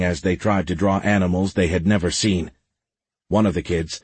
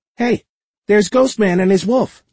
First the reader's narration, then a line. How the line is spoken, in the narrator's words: the boy exclaimed